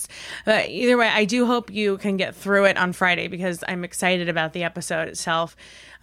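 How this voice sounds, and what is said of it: Husky, sick-sounding voice. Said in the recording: “my voice sounds horrible. I was really sick... annoyed by the huskiness”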